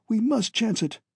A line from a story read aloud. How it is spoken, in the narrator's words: exclaimed Dr